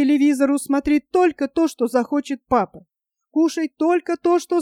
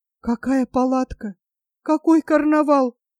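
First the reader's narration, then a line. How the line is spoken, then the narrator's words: Stammering, forced out. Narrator (Russian): выдавила она, запинаясь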